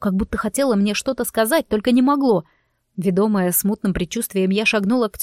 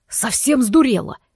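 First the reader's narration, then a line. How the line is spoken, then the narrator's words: Barked. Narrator (Russian): рявкнул он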